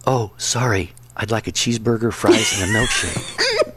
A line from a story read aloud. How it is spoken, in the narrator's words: The man whispered back